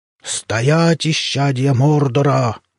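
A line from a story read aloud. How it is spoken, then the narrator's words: Thunderous bark. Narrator (Russian): громовым голосом рявкнул Татаукан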